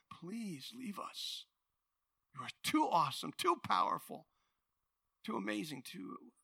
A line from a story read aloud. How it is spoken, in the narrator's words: they begged him